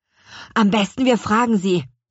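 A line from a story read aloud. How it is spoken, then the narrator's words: Called out. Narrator (German): rief Louis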